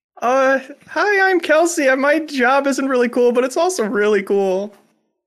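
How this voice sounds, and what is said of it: Imitates another person's voice. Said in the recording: “classic Kelsey Lewin impersonation”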